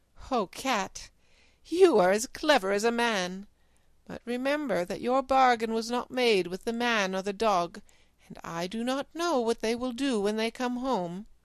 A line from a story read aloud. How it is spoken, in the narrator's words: And the woman laughed and said